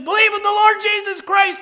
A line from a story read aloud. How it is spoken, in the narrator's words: yells back at him and says